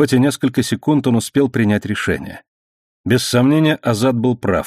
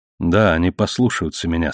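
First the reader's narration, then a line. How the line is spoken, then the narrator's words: Plain. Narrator (Russian): сказал он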